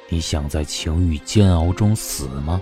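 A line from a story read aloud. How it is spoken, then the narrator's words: Icy cold voice. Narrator (Chinese): 声音冰冷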